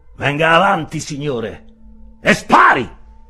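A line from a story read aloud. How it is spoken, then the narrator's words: Shouted. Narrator (Italian): gridò all'avversario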